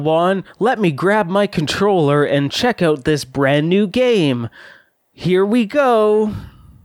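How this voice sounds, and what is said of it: Exaggerated presenter acting voice. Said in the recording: “There is that acting voice, like the presentation acting”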